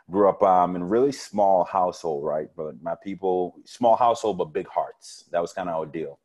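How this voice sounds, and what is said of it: Caribbean accent. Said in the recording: “originally from the Caribbean islands, so you'll hear my accent jump out a lot”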